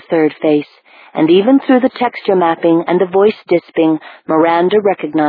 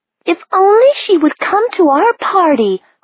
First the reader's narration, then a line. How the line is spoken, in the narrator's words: cried another one, whom Miranda recognized as a member of the Parnass Company, named Christine something or other